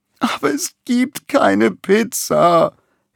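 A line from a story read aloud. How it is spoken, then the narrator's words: Whined. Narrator (German): jammert Balduin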